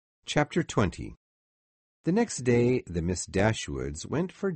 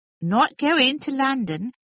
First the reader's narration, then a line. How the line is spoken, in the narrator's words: cried Mrs